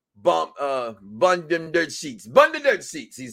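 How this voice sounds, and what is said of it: Put-on Jamaican accent. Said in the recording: “That's his Jamaican accent. I was trying to imitate him.”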